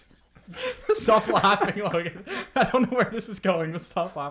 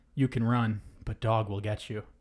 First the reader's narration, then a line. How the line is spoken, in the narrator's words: someone whispers in my ear